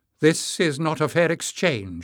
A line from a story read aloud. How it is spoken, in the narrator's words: exclaimed loudly